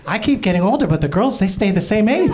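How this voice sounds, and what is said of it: Imitates another person's voice. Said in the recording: “Working on my Mark Rubio impression.”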